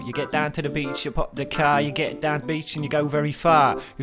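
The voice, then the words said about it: Put-on East London English accent. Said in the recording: “East London. Give it to me now, in London, mate. ... I'm about to go Jamaican, but I'm gonna try it, eh, do it in an English accent”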